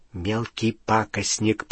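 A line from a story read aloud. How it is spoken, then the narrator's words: Whispered. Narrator (Russian): прошептал Рон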